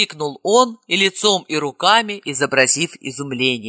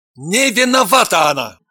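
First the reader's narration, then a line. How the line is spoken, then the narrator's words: Loud bark. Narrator (Russian): гаркнул Евгений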